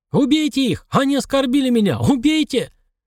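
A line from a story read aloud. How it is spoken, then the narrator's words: Spluttering furious shout. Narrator (Russian): Хатамыш, брызгая слюной, кричал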